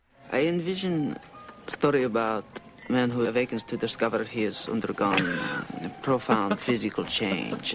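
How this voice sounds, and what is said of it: Exaggerated hammy Austrian Czech accent. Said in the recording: “amazing ham sandwich of an Austrian Czechoslovakian. I don't know what the hell's going on with this accent”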